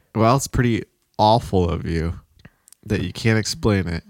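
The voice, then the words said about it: Imitates another person's voice. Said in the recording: “A little bit of Aunt Kathy coming in ... That was a good impression.”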